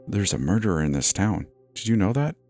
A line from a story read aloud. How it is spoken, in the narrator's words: whispered in my ear